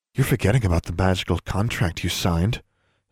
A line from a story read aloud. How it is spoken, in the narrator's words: Sue warned quietly